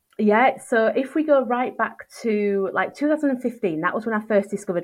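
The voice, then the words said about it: Northern English Yorkshire accent. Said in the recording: “she's from up north ... is she from Newcastle? ... the Yorkshire accent is coming right through now”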